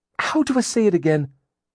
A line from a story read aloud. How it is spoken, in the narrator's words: she asked Lydia frantically